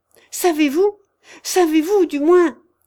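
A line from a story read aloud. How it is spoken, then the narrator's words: Shouting. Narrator (French): cria-t-il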